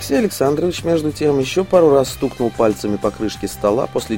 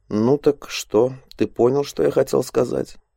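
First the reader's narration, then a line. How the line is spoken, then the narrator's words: Quiet speech. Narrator (Russian): негромко произнес он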